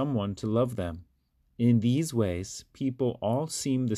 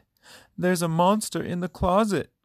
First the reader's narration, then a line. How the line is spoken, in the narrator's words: Carmen cried